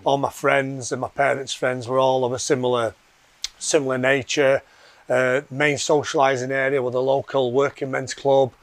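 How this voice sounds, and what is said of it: Yorkshire English accent. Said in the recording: “I'm from Yorkshire originally, which you can probably tell by the accent.”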